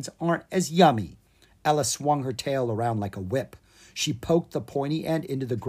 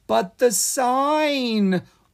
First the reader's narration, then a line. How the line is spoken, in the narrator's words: Owen said nervously